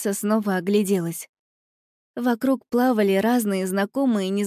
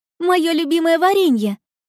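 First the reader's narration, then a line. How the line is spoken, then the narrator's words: Girl's exclamation. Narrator (Russian): воскликнула девочка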